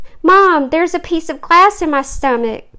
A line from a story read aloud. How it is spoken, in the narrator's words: cried Nick